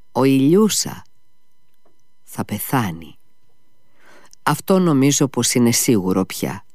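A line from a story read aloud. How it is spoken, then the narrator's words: Sad answer. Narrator (Greek): απάντησε λυπημένα ο Αλιώσα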